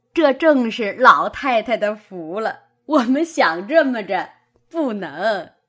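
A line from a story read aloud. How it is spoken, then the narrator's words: Laughing. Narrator (Chinese): 刘姥姥笑道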